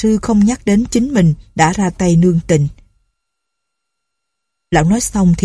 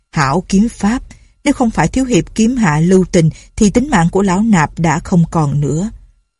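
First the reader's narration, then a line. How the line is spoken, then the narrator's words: Wounded old monk, smiling. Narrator (Vietnamese): Phương Sinh đại sư bịt vết thương trước ngực, mỉm cười nói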